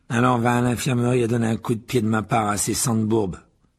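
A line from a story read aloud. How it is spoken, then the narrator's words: Sneer. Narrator (French): ricana Malfoy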